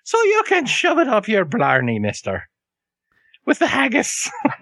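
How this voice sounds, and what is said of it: Exaggerated fake Irish accent. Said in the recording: “Irish accent sounds more like a Welsh cat that's trying to learn how to speak ... the fake Irish ... just as terrible and just as exaggerated”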